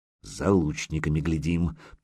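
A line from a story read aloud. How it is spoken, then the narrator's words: Through gritted teeth. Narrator (Russian): процедил Малига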